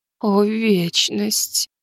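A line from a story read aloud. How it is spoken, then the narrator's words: Trembling voice. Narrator (Russian): дрожащим голосом произнесла Азимандия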